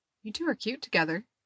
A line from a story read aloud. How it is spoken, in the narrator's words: she said softly